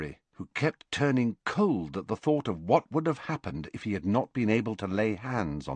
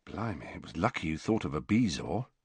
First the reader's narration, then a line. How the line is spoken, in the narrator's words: said George in a low voice